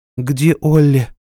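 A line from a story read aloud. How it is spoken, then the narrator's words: Trembling voice. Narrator (Russian): дрожащим голосом спросила Нора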